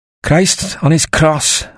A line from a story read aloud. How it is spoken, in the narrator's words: a voice grumbled